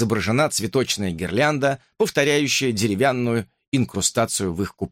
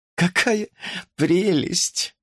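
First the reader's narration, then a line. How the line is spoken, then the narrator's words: Sigh. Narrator (Russian): вздохнула Сильви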